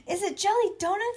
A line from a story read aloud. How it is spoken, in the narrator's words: I shouted